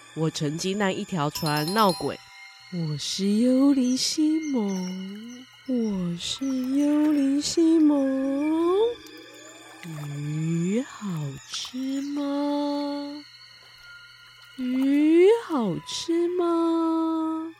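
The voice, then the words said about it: Scary ghost voice. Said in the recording (Chinese): “用可怕的声音说话着”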